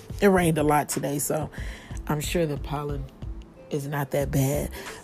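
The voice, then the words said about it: Hoarse, fading voice. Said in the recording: “I don't know what's going on with my voice. Suddenly it's trying to leave me ... I'm losing my voice a little bit”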